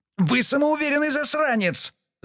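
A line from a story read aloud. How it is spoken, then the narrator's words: Yelling back. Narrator (Russian): заорал в ответ Даниэль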